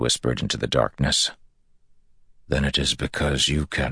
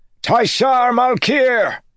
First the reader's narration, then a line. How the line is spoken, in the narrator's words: He screamed with all the force he could